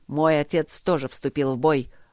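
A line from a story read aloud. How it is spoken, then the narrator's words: Growling voice. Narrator (Russian): рычаще сказал Бермонт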